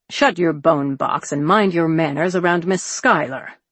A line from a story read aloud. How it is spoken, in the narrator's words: Arnold growled